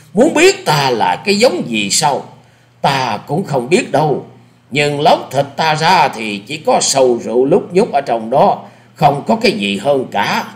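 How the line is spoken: Laughing loudly. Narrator (Vietnamese): Lão nghe nói thì cười to

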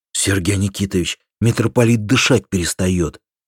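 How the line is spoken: Frightened voice. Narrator (Russian): мне сообщили испуганным голосом

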